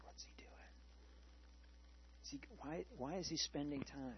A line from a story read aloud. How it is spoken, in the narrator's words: everybody kind of whispered